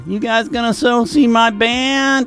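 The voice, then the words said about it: Whiny impression of Darcy. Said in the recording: “whining ... good Darcy whine impression”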